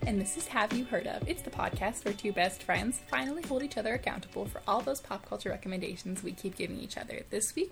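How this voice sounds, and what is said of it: Serious professional businesslike voice. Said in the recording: “I'm talking in my professional voice again... I'm only a serious businesswoman now”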